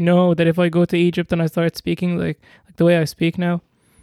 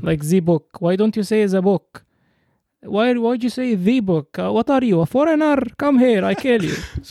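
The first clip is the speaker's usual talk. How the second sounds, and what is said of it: Put-on Egyptian accent, TH as Z. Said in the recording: “oh, why don't you say TH is Z ... the Egyptian accent”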